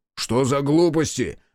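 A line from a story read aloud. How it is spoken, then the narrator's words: Impatient angry roar. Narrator (Russian): взревел Айошики, потеряв терпение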